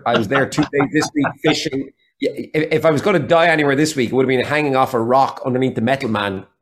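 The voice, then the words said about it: Irish accent mixing Waterford, Galway, Dublin. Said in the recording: “I actually trained my accent, if you like, to be a mixture of accents. ... So there's still Waterford in there ... Then Galway ... some Galway in there and some Dublin in there as well”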